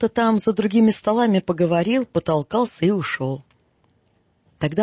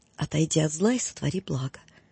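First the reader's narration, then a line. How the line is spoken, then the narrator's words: Quiet. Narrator (Russian): Делопроизводитель тихонько сказала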